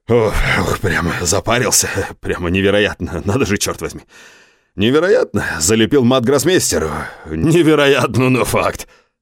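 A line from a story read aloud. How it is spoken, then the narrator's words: Loud laughing. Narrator (Russian): захохотал он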